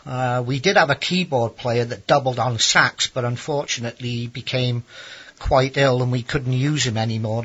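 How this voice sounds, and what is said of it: South Welsh accent. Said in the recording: “the accent you're speaking with? ... It's from South Wales in Great Britain.”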